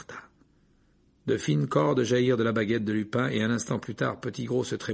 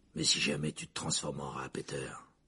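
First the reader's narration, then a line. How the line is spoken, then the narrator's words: Growled. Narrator (French): grogna Black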